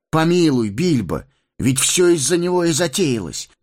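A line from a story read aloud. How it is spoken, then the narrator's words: Exclaiming. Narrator (Russian): воскликнул Фродо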